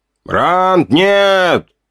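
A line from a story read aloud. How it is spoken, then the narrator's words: Shout from ahead. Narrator (Russian): крикнул Сови впереди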